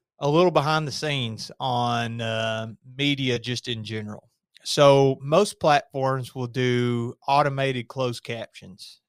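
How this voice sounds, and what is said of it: Regional accent. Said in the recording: “It says hawkers because of my accent.”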